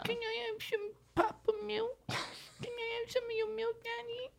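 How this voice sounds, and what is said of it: Baby voice. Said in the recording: “the baby voice”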